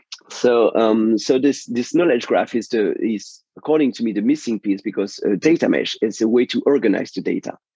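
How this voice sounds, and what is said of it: Strained, fading voice with French accent. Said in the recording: “losing my voice. I'm French and I'm losing my voice.”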